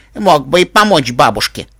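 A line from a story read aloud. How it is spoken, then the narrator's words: Angry. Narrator (Russian): зло сказала она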